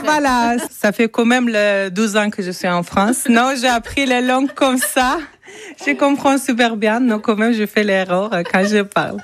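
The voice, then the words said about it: Foreign accent speaking French. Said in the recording (French): “Désolée pour mon accent.”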